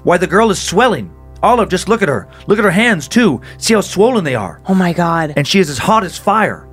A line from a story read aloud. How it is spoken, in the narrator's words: remarked in a startled tone